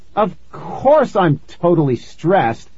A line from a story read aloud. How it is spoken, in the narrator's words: I snapped